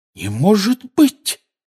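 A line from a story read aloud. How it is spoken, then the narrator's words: Exclaiming. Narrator (Russian): воскликнула Гермиона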